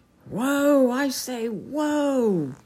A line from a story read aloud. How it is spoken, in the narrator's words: cried King Pellinore in muffled and distant tones, far away among the gorse bushes